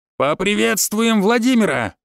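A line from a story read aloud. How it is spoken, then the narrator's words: Yell. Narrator (Russian): заорал Ефим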